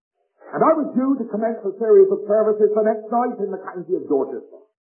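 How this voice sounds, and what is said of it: West Country English accent. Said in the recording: “As you can tell by my dialect ... I come from the west country of England”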